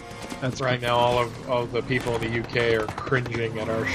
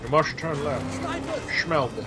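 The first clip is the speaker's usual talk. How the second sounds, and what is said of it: Sean Connery impression. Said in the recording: “our Sean Connery impersonation”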